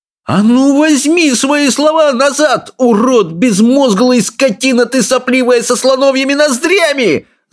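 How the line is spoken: Yelling. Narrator (Russian): заорал Икинг

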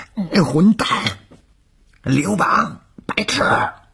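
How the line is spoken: Hoarse, all-out yelling. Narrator (Chinese): 吴小周声嘶力竭地吼着

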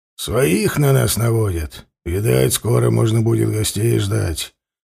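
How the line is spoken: Muttering raven. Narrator (Russian): пробурчал сотнику ворон

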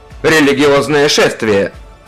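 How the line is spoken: Barked. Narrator (Russian): рявкнул Сикарий

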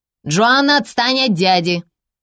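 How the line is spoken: Mother's sharp rebuke. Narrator (Russian): прикрикнула на нее мать

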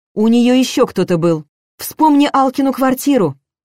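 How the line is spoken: Shout after someone. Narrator (Russian): крикнула Нина мне вслед

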